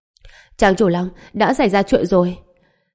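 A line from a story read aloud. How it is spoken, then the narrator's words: Panting cry. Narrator (Vietnamese): thủ vệ canh cửa thở hổn hển kêu lên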